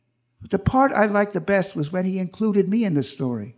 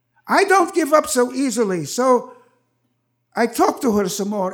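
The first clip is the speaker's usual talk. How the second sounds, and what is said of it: Very heavy Russian accent. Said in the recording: “he said in his very heavy Russian accent”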